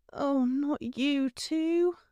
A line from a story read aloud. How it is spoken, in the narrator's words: Hermione groaned